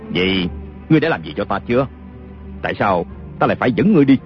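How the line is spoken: Sneering. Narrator (Vietnamese): Kiều Phong cười khẩy

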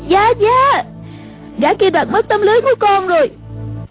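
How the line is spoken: Crying out. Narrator (Vietnamese): A Tử kêu lên

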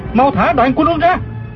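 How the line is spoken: Shouting mid-fight. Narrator (Vietnamese): Du Thản Chi vừa đấu chưởng vừa la lên

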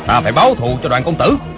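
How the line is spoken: Grieving, furious loud shout. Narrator (Vietnamese): Phó Tư Quy, nghe nói Đoàn Dự đã chết, vừa đau lòng vừa tức tối, quát lớn

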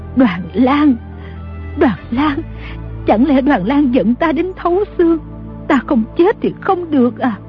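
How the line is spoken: Trembling old woman. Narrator (Vietnamese): Bà run rẩy nói

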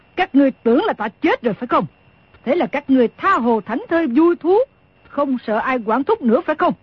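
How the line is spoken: Huffing, angry question. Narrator (Vietnamese): Đồng Mổ hừ một tiếng, rồi tức giận hỏi

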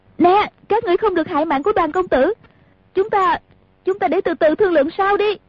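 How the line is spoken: Woman shouting loudly. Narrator (Vietnamese): Nàng lớn tiếng la lên

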